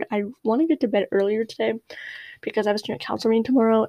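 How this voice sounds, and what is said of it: Tired-sounding voice. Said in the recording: “I sound tired.”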